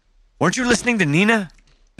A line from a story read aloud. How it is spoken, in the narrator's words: Benj snapped